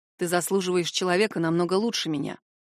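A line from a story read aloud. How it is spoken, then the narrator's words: Said quietly. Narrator (Russian): произносит он тихо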